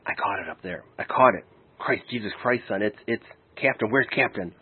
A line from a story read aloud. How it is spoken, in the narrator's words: he leaned in close to me and whispered